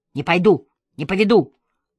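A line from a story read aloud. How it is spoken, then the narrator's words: Child yelling. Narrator (Russian): орал маленький Витька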